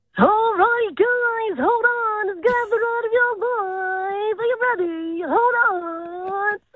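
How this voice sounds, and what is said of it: Carnival ride operator voice. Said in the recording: “could do a good carny voice ... like a carnival person? ... Can we get some carny impersonations?”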